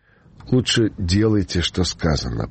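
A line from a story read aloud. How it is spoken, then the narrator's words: Unsure, plaintive young threat. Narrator (Russian): пригрозил юный водитель неуверенно жалобным голосом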